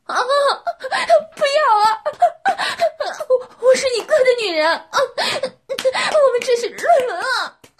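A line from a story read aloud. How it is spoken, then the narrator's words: Woman's desperate shouting. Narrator (Chinese): 女人的喊叫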